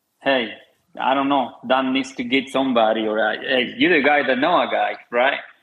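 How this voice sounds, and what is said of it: Hispanic-accented English. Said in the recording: “I'm Hispanic myself... Freaking accent cannot depart me even when I shake myself”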